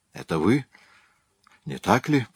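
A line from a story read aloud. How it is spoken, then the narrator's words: Whisper. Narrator (Russian): прошептала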